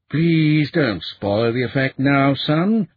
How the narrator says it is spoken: Reuben said wearily

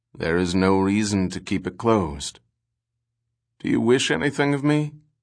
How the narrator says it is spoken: He said wearily

